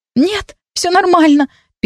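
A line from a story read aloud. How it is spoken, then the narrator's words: Squeaking. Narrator (Russian): пискнула я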